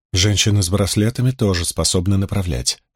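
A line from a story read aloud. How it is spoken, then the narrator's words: Quiet girl's reply. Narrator (Russian): ответила девушка также тихо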